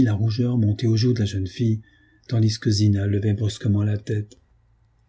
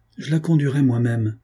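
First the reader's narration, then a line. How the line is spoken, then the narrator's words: Curt, repeated. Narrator (French): il répéta, d'un ton bref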